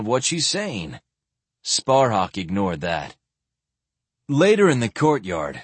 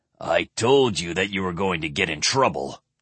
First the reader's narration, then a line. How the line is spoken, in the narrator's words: Curic growled at him